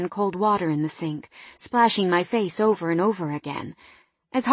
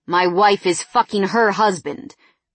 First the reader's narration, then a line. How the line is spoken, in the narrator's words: Barry snapped